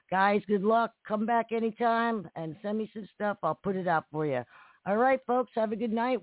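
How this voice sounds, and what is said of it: Hoarse voice. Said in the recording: “Yeah, I'm really hoarse.”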